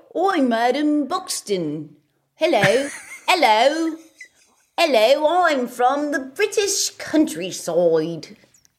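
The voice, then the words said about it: Put-on English accent. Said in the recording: “How's your English accent? ... I can't do accents at all ... I love it. ... It's so good.”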